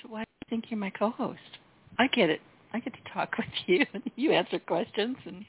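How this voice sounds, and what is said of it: Sweet Southern US accent. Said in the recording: “With your southern accent, and I know you say it's not a southern accent, but it is. With your sweet southern accent”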